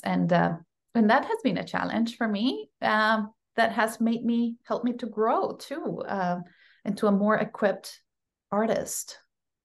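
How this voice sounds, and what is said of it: Non-American accent. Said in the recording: “having an accent is an asset ... I naturally have that already ... I have to work my accent to make it as clear as possible for the American audience”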